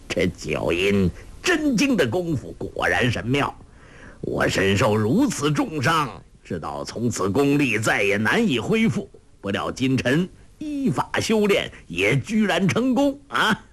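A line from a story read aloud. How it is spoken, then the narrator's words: With a light laugh. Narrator (Chinese): 洪七公一笑……说道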